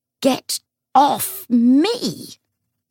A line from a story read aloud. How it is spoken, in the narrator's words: Matthew wheezed